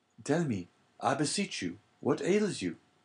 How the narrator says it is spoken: cried Dante

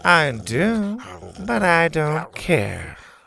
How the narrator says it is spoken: Bo breathed

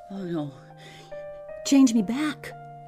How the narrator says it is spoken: George pleaded

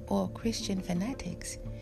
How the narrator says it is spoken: Chi-Chi only laughed

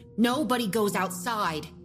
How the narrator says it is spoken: she snapped

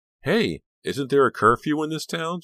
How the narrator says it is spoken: She called out, teasing the crowd

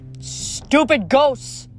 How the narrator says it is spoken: Nico shouted

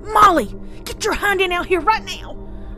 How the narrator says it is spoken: shouting and crying simultaneously, fear and anger making my words sound strained

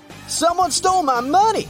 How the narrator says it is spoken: Suddenly, the shopkeeper begins to yell

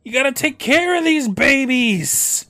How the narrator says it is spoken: Shriek snaps

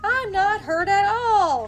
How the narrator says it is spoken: shouted Tommy

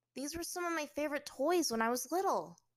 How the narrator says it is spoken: Aang said, his voice alight with the excitement of nostalgia

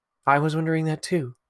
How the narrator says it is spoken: said Gwyn

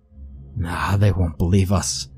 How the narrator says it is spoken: Finian muttered

